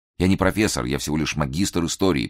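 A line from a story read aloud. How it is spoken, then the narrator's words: Mutter. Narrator (Russian): пробормотал Николас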